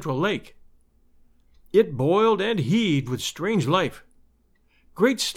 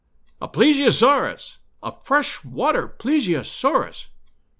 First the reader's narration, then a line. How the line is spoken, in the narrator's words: cried Summerlee